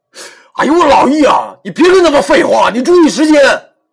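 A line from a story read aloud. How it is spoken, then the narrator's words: Hurried shout. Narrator (Chinese): 我慌忙对他喊道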